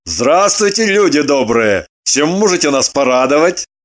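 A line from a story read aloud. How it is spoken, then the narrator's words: Cheerful question. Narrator (Russian): Весело поинтересовался Лагутин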